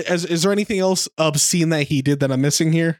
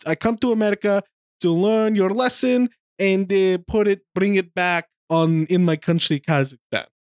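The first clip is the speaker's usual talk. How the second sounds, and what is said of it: Put-on Kazakhstani accent. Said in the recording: “He's doing a Kazakhstani accent, which he does way better than me.”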